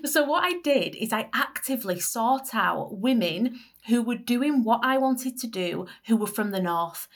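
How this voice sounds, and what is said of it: Northern English Leeds accent. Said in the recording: “having a Northern accent ... this Leeds accent”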